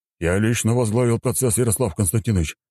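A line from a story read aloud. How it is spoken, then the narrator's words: Hurried telling. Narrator (Russian): начал торопливо рассказывать Пискарев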